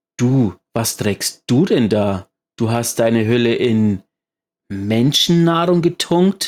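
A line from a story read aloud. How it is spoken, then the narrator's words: Disgusted shout. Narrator (German): rief Imaru angewidert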